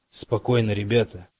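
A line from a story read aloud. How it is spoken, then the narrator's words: Muttering. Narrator (Russian): пробормотал мистер Кауч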